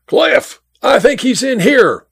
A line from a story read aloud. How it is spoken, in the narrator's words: yelled